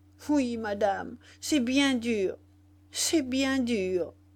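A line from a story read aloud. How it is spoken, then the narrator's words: Stammering, choked with sobs. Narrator (French): bégaya Zoé, étranglée par une nouvelle crise de sanglots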